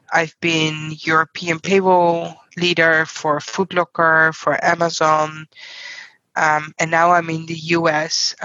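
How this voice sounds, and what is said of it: Non-American foreign accent. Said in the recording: “from your accent, obviously you're not American”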